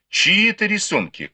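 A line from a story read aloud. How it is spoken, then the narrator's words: Shouted. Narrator (Russian): крикнула Сяо Хун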